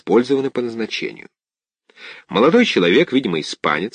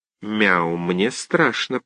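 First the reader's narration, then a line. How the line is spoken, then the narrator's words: Cat mumbling. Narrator (Russian): пробормотал кот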